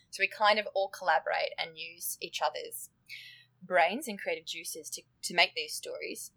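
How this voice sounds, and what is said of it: Australian accent. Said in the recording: “my accent gives it away, but I'm Australian.”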